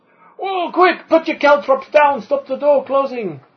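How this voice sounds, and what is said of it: Put-on Scottish-Welsh dwarf accent. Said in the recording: “your accent ... It's a dwarven accent, lad ... why is she Welsh ... She's Russian, actually ... With a slightly Scottish Welsh accent”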